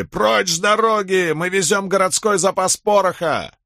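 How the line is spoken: Drivers shouting repeatedly. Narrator (Russian): Возницы и сопровождающие то и дело кричали

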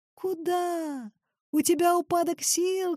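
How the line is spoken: Shouting. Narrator (Russian): крикнул Клюнину Николай Михайлович

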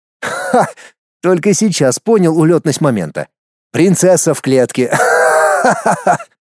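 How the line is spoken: Laughing. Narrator (Russian): Хохотнув пару раз, он

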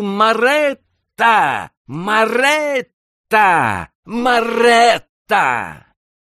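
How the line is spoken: Choked failed shout. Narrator (Russian): Кент хотел крикнуть и не мог

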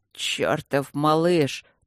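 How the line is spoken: Admiring mutter. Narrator (Russian): пробормотал барон восхищенно

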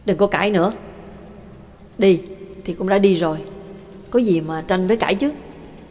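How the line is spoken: Cold woman's voice. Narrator (Vietnamese): Giọng nói lạnh lùng của bà Tàng cất lên

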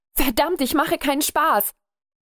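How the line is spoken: Young man shouting. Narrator (German): rief der junge Mann

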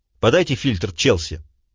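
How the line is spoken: Sharp. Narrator (Russian): резко сказал

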